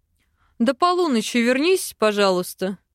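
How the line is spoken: Amused snort. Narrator (Russian): хмыкнул эльф

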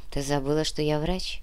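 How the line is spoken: Sad, smiling. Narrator (Russian): грустно улыбнулся профессор

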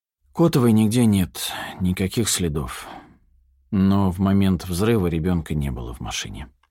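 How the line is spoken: Sighing young man. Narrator (Russian): вздохнул парень

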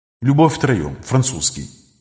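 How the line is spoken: Muttering to himself. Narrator (Russian): Буркнул про себя Виктор

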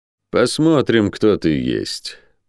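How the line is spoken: Through gritted teeth. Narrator (Russian): процедил воин

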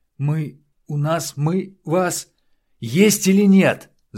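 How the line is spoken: Yell. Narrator (Russian): заорал Дронго

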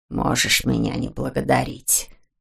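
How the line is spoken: Muttering. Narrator (Russian): буркнул он ему вслед

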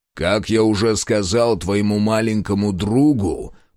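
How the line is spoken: Growling guard. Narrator (Russian): прорычал охранник

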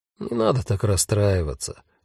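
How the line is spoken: Soft, gentle. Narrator (Russian): мягко сказал Альгирдес

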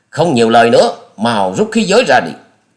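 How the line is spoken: Roaring. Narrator (Vietnamese): Gã đó gầm lên nói

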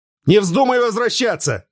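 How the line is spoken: Shouted. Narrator (Russian): крикнул

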